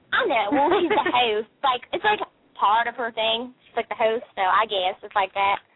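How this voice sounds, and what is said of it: Southern-sounding American accent. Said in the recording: “Are you from the South? ... I love your accent, though. ... why do you talk like from the South?”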